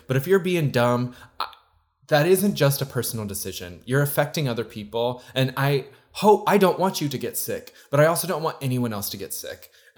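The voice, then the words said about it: Raised, heated yelling voice. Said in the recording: “I'm sorry I'm yelling at you. I got literally hot about it.”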